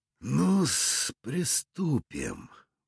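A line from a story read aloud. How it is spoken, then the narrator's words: Muttered. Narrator (Russian): пробормотал Кек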